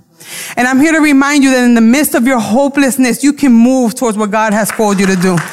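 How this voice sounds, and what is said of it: Brooklyn accent. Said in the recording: “My accent comes out. I don't pronounce words correctly. My Brooklyn comes out.”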